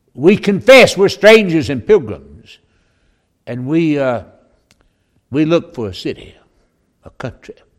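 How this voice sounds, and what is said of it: Southern American accent. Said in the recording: “if you've got a southern accent, you're from Texas ... My accent gives it away”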